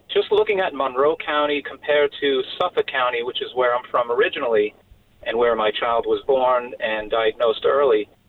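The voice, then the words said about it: Long Island accent. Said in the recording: “I'm originally from Long Island. You may be able to tell through the accent.”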